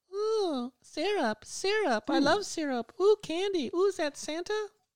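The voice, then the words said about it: Whispering little elf voice. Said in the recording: “a little elf is whispering in your ear”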